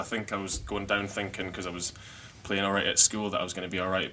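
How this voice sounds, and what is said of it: Scottish accent. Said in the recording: “they thought I had a strong Scottish accent”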